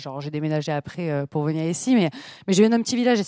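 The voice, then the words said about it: Southern French accent. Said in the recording (French): “oh, mais t'as l'accent du Sud, tu viens d'où? ... moi, j'ai l'accent du Sud”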